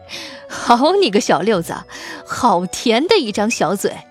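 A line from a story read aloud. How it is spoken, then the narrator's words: Delighted chuckling. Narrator (Chinese): 沈大帅顿时心花怒放，嘿嘿笑道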